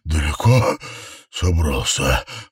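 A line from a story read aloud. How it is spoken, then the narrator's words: Hoarse guttural inhuman voice. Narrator (Russian): хриплый утробный голос Дэниела лишь отдаленно напоминал человеческий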